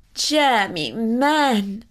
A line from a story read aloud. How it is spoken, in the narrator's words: cried his mother